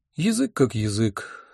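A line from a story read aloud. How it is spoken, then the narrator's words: Sighing. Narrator (Russian): вздохнул я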